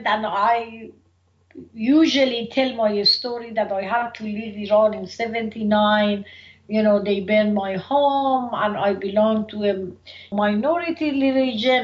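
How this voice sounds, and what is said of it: Thick Iranian accent in English. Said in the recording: “when I'm here and I talk in English, of course, I have a very thick accent talking in English ... people picked up that I have accent”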